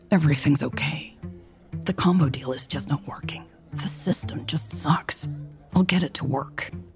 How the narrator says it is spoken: she whispered in an angry tone

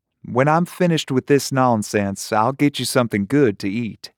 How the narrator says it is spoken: Her voice turned musical again as she said

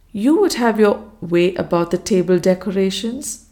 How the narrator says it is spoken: I gently reminded her

